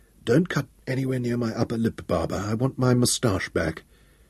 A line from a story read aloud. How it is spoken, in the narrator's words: he said weakly